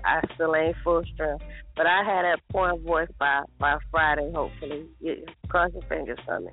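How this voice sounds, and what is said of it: Raspy, hoarse voice. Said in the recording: “her voice got raspy ... you're a little raspy this morning, huh?”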